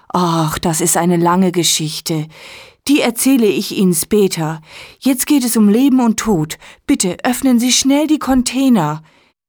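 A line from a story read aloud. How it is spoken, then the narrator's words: Excited speech. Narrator (German): sagt Nele aufgeregt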